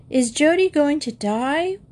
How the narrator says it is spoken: wailed Linda, who was only 5 and didn't know what they were talking about

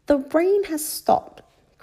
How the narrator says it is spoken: cried Peppa

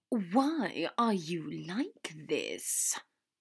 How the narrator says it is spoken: Draco hissed

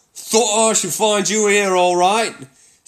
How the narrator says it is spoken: said the Otter cheerfully

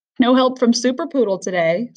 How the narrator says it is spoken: said, still laughing

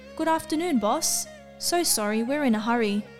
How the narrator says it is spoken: The priest casually called out to the young policeman cheerfully

